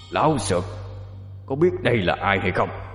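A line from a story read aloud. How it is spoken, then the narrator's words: Shouting. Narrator (Vietnamese): Quỷ đứng đối diện với bóng ma ngay giữa bàn thờ, đoạn trỏ kiếm vào bóng ma mà quát lên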